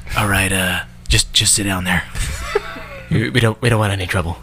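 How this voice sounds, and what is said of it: Good impression of Cal. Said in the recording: “That was a good impression of Cal.”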